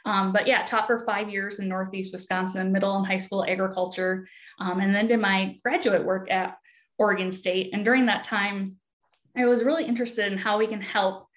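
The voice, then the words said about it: Midwestern American accent. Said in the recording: “you'll hear my Midwest accent come across loud and clear”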